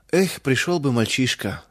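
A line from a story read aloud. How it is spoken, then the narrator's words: Miller sighing. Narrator (Russian): вздохнул мельник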